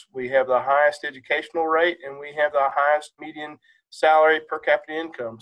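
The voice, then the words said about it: Southern West Virginia accent. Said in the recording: “I'm a son of Southern West Virginia. You can hear my accent.”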